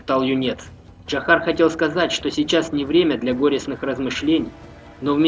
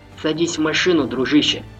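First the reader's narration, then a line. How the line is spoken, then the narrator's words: Plain. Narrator (Russian): сказал Джахар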